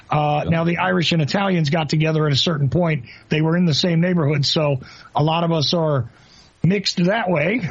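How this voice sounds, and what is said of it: Northeastern US accent, slight Southern. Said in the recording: “there's elements of the Southern accent in there ... you're hearing a Northeastern guy ... you sound like you're from New York ... New Jersey ... the majority of my accent, which also has an ethnic twist on it”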